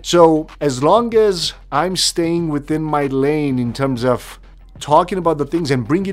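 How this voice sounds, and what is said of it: Non-native English accent. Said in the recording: “my accent”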